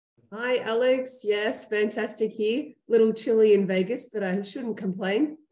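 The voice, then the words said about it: Australian accent. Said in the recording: “despite my accent ... i'm sure we were speaking to someone in australia”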